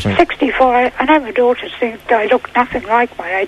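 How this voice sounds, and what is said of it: Slightly impaired, strained voice. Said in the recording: “my voice is a little impaired”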